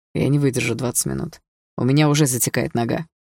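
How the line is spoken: Wry snort. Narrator (Russian): хмыкнул Дима

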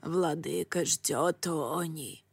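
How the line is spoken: Hoarse rasping witch. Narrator (Russian): прохрипела колдунья

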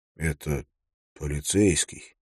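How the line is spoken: Quiet. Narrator (Russian): тихо сказал

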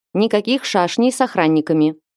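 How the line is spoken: Stern warning. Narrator (Russian): предупредил он строго

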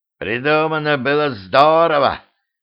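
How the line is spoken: Hoarse shout. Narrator (Russian): хрипло выкрикнул Латыш

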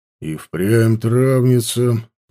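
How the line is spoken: Grumbling. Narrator (Russian): проворчал

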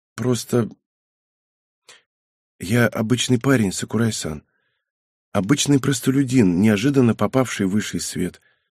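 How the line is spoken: Quiet. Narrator (Russian): произнес он тихо

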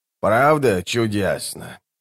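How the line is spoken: Sighing. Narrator (Russian): вздохнула она

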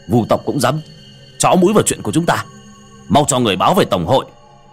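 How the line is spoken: Angry. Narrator (Vietnamese): Tên cầm đầu tức giận

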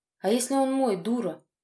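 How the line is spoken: Hoarse, restrained. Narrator (Russian): прохрипел я, пытаясь держать себя в руках

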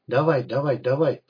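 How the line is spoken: Barely audible old man muttering. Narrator (Russian): приговаривал старик еле слышно

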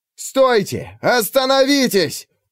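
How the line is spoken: Yelling. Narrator (Russian): вопил Алексей

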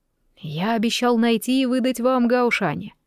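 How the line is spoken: Calm old man. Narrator (Russian): спокойно отвечал старик

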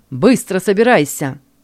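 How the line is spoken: Stern command. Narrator (Russian): Один из них строго приказал

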